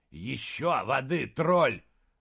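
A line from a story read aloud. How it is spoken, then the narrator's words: Hissing. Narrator (Russian): зашипел Хенфиск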